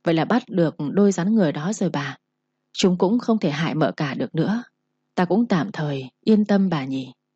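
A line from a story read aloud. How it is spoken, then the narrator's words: Comforting. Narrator (Vietnamese): Vũ Mão an ủi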